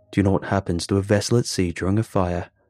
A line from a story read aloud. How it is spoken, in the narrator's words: asked, his voice cold as ice